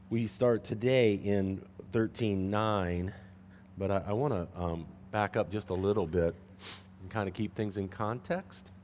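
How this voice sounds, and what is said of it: Scratchy, strained voice. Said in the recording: “The more I talk, the worse my voice gets... if I get a little scratchy”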